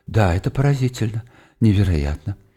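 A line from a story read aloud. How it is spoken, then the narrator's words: Mutter. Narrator (Russian): бормоча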